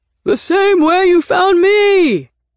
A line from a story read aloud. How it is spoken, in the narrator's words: He yelled back